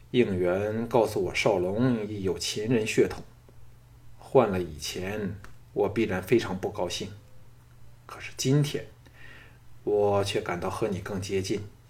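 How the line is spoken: Deep, gloomy voice. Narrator (Chinese): 乌世罗脸上现出阴霾，沉声说

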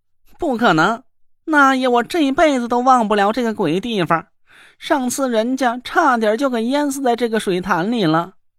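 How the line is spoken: Shrill cry. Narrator (Chinese): 那若兰尖声叫了起来

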